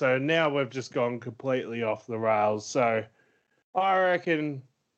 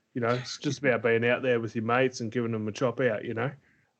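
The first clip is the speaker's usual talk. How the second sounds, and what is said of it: Generic Australian footy coach voice. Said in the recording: “I'm talking like a generic footy coach now.”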